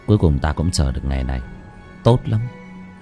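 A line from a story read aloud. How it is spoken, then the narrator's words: Soft satisfied laugh. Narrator (Vietnamese): Bác Cổ khẽ cười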